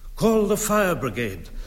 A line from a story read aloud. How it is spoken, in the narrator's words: cried Mrs